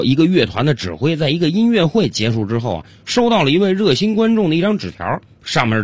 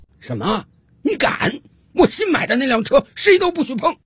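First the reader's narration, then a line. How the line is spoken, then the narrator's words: Loud shouting. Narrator (Chinese): 大声冲着太太喊道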